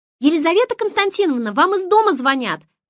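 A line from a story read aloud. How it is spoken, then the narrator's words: Secretary shouting. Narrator (Russian): крикнула секретарша в открытую дверь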